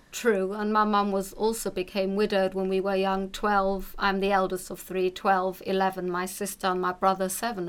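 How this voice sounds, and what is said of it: Speaks with a noticeable accent. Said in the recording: “as you've heard by my accent”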